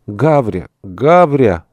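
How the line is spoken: Joyful shout. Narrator (Russian): закричал радостно

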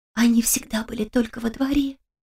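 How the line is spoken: Whisper. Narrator (Russian): прошептала Кристина

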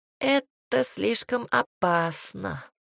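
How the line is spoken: Deputy sighing. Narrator (Russian): вздохнул заместитель

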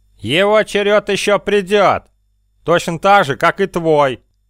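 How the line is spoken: Thundering voice. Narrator (Russian): прогремел голос Карглока

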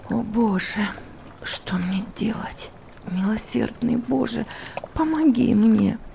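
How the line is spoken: Repeated whisper fading away. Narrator (Russian): повторялось много раз, пока этот шепот не затих

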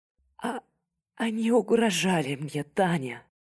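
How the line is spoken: Very quiet tearful whisper. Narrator (Russian): Прошептала она совсем тихо, подняв заплаканное лицо

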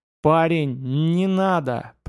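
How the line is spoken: Moaned under breath. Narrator (Russian): простонал Илья себе под нос

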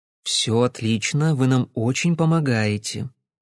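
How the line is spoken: Soft, gentle. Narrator (Russian): мягко проговорила Кэсси

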